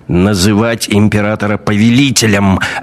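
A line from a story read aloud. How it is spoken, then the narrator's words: Barked. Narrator (Russian): рявкнул советник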